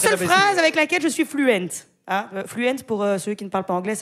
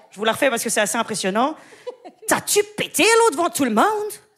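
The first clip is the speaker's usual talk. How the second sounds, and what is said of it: Put-on Québécois French accent. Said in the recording (French): “c'est l'accent québécois”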